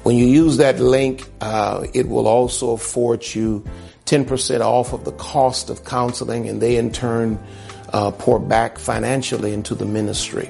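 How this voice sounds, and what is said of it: Strained, worn-out voice. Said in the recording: “My voice is gone.”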